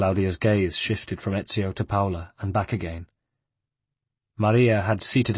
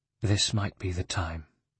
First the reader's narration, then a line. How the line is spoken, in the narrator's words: she said softly